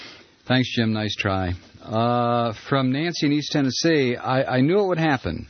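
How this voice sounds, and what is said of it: Usual voice. Nothing is said of it.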